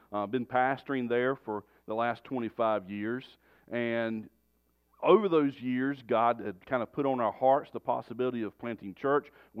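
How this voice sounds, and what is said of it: North Carolina Southern accent. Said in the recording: “you can probably tell from my accent, I'm not from around here. But we were born and raised in North Carolina.”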